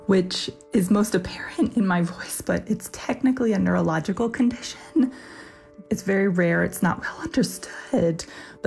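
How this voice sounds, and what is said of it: Whispery, hoarse voice that cuts out. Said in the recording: “my voice is a little whispery and kind of hoarse and cuts in and out”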